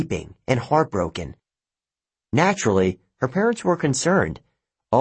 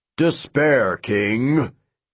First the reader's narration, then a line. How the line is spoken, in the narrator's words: she bellowed